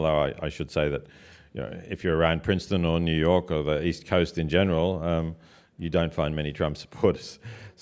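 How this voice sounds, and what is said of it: Australian accent. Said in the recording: “There's still a very good Australian accent there.”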